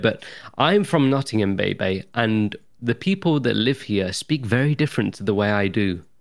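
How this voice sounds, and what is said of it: Well-spoken British accent. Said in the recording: “you're a very well-spoken individual ... Something about British people ... I'm very well spoken.”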